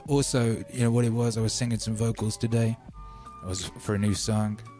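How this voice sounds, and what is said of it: Hoarse, almost whispering voice. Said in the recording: “Voice a bit hoarse ... this is my practically whispering voice ... tore up my throat”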